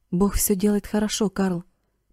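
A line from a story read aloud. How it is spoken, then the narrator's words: Whisper. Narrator (Russian): прошептал он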